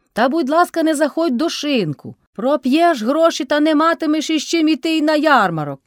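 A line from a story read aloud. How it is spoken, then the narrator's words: Shouting again. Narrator (Ukrainian): знов крикнула Кайдашиха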